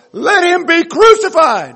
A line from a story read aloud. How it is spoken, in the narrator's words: they shouted, they shouted all the more